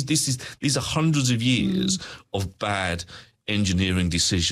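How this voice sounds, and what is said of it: Usual voice. Nothing is said of it.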